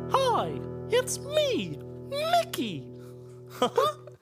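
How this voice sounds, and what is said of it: Mickey Mouse cartoon voice impression. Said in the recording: “You do a better impression than me, and I'm the one that has to endure Mickey Mouse Clubhouse”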